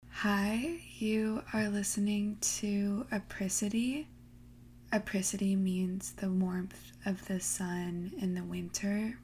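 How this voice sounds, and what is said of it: Slightly sleepy voice. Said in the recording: “I just woke up. So I'm sorry if I sound a little sleepy”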